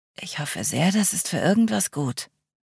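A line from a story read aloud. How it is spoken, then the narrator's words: Murmured. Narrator (German): murmelte sie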